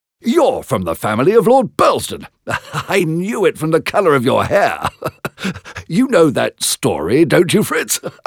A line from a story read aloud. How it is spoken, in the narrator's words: He was laughing now